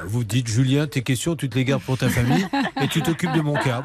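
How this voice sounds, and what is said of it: Soft southern French accent. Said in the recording (French): “cet accent, cet accent qui me fait plein de choses dans le dos, c'est un accent doux. Euh, du sud, du Gers.”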